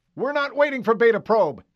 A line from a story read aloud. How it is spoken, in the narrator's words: Chief McRobb barked